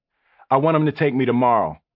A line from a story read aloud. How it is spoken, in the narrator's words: I said firmly